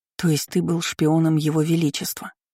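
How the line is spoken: Calm summary. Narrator (Russian): спокойно подытожила Кейр

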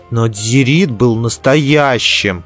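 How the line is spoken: Stubborn grumble. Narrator (Russian): упрямо проворчал он

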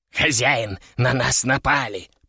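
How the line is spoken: Hissed. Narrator (Russian): прошипел Кеша

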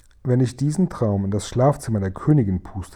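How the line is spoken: Plain. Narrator (German): sagte der Guri

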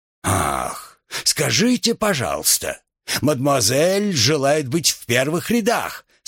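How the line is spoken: Mocking exclamation, father. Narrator (Russian): с усмешкой воскликнул отец

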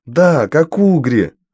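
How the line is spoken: Exclamation. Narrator (Russian): воскликнула Дафна

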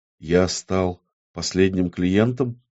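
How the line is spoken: Quiet question. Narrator (Russian): тихо спросил Амон

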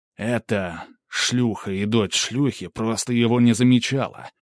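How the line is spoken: Deep guttural growl. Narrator (Russian): Сын шейху утробно зарычал

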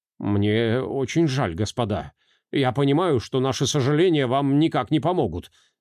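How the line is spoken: Mumbled apology. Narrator (Russian): пробормотал он

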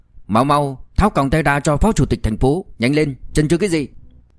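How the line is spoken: Loud. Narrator (Vietnamese): Ngụy Tuấn Chí lớn tiếng nói

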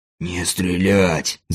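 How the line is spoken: Hiss. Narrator (Russian): зашипел Гру

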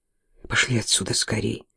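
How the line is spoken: Muttered. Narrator (Russian): пробормотала Кейт

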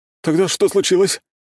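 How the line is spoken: Hysterical shout. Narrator (Russian): истерично выкрикнул Сёмушкин

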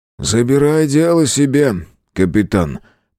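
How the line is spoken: Grumble. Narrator (Russian): проворчал

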